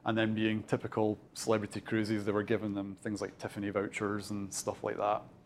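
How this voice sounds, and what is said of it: Scottish accent. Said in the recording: “I don't know if you can tell from my accent, but I'm originally from Fife ... born and bred Dunfermline”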